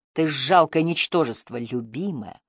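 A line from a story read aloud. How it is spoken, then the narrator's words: Hissed in ear. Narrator (Russian): прошипел он ей на ухо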